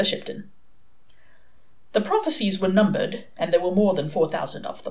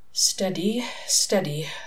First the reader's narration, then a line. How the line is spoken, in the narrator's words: Aziraphale muttered to himself